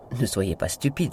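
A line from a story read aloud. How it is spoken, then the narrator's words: Plain reply. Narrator (French): répondit-elle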